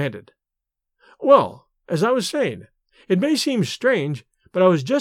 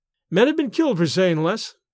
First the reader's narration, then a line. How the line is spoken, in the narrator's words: he said